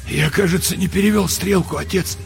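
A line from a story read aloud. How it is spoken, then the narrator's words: Hoarse. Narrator (Russian): сказал он сипло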